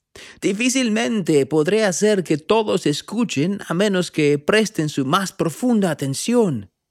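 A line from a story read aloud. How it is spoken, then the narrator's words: Prophet shouting over wind. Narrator (Spanish): gritó el profeta por encima del ruido del viento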